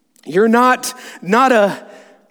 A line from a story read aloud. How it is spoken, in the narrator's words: asked Susan in a shaky voice